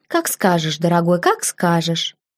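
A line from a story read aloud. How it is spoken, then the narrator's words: Calm reply. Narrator (Russian): Я спокойно ответила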